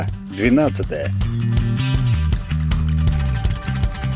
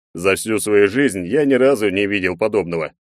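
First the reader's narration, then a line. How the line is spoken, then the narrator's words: Nervous snort. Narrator (Russian): нервно хмыкнул Егор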